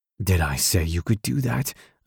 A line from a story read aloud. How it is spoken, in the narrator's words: I whispered by her ear